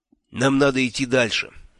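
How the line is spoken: Plain. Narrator (Russian): наконец сказал Мелифаро

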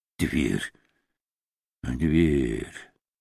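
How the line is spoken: Muttering. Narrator (Russian): бормотал Митя

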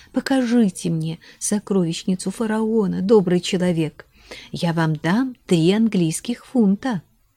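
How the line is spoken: Whispered. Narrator (Russian): прошептала

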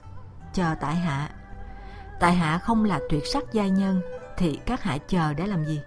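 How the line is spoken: Smiling. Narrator (Vietnamese): Diệp Khai mỉm cười

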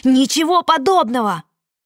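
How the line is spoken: Shouted. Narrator (Russian): Я крикнула

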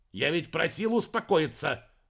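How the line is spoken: Barking shout. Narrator (Russian): рявкнул Кольдер

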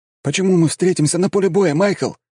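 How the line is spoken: Shouted from behind. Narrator (Russian): крикнул Грек мне в спину

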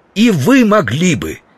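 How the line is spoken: Sudden shout. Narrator (Russian): неожиданно крикнул он

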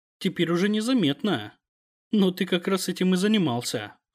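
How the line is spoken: Dry remark. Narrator (Russian): сухо указала моя ученица

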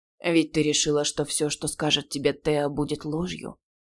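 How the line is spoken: Quiet reply. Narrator (Russian): негромко ответил Келфер

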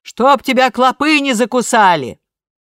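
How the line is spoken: Shouting. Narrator (Russian): крикнула, отъезжая

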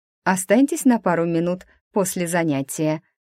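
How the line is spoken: Calm command. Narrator (Russian): велела она спокойно

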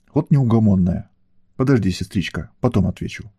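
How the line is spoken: Mutter. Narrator (Russian): пробормотала Анна

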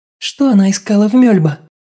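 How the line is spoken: Whimpering. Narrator (Russian): Кнас захныкал

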